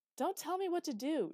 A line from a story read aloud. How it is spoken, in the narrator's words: shouted Hurricane